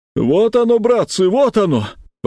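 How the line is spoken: Exclaiming. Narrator (Russian): воскликнула Нюра

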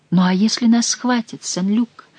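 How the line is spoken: Frightened young woman. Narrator (Russian): испуганно сказала молодая женщина

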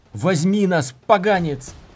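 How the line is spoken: Yelling. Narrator (Russian): заорал он

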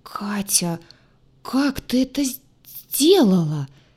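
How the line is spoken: Stammering whisper. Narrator (Russian): Слегка заикаясь, прошептал герой

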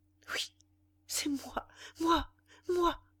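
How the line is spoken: Dazed stammer. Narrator (French): bégaya Valentine, hébétée

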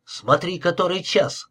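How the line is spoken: Exclaiming. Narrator (Russian): воскликнул он

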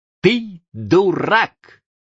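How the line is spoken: Laughing. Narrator (Russian): рассмеялся

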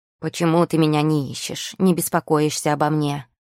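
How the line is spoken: Grumbling. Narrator (Russian): проворчал он

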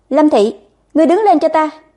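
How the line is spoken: Loud scolding. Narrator (Vietnamese): lão thái thái cao giọng quát

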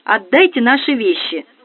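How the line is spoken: Angry woman. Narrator (Russian): сердито произнесла незнакомка

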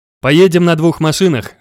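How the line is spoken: Cheerful father. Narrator (Russian): весело сказал отец

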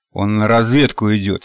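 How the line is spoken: Angry. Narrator (Russian): сердито зыркнул на парня Нанос

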